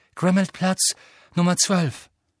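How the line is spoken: Called out. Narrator (German): rief

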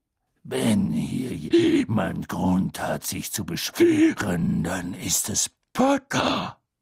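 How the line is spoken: Growled. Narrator (German): knurrte Moody

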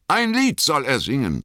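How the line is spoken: Hobbit calling. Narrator (German): rief einer der Hobbits

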